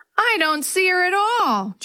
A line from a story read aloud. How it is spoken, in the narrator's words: Jenny wailed